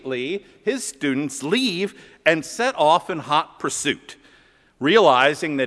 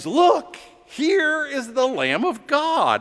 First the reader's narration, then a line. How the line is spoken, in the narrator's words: John exclaims